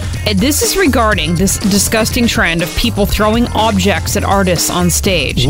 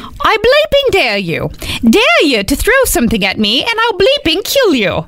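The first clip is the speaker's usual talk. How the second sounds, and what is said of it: Put-on British accent. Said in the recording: “Imagine Adele saying this in her British accent... you're not going to try to do a British accent”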